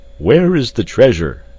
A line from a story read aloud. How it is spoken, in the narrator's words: he cried to Clayton, while yet 100 feet separated them